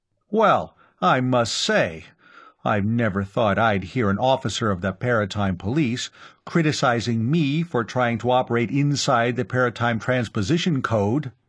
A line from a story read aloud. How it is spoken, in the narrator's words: Brannad Clav exclaimed